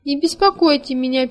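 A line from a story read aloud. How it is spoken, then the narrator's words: Sad reply. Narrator (Russian): печально отозвался Хемуль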